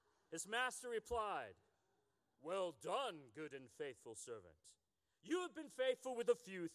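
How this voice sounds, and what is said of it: Usual voice. Nothing is said of it.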